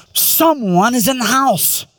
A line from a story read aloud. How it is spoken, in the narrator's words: in a louder, tense whisper